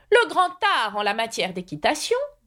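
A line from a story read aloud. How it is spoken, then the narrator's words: Rider's loud abrupt voice. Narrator (French): commença brusquement le cavalier d'une voix forte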